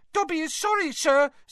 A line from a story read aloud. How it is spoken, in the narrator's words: squeaked Dobby anxiously, with his long fingers over his mouth